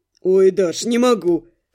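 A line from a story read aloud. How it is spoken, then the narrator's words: Moaning through laughter. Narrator (Russian): Сквозь смех простонал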